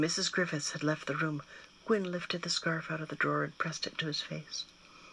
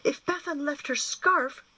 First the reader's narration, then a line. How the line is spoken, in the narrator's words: Gwyn exclaimed aloud